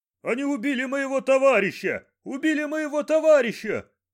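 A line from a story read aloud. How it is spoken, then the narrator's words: Shouting. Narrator (Russian): кричал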